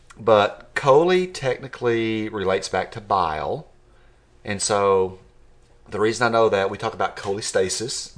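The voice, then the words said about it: West Texas and Georgia accent. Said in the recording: “You can hear my West Texas, middle Atlanta, Georgia accent.”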